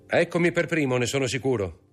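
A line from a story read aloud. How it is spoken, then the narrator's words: Exclaimed. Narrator (Italian): esclamò Maximilien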